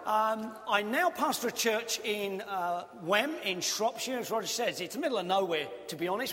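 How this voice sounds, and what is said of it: Cockney southeast London accent. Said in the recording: “I grew up in southeast London, hence I have the accent of heaven. And when you get there, they're all going to be Cockneys”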